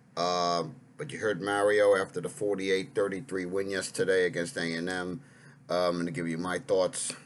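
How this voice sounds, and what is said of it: Hoarse, strained voice. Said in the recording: “my voice is a little shot”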